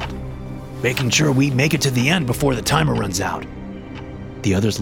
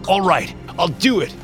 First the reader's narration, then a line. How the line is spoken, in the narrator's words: the man yelled in panic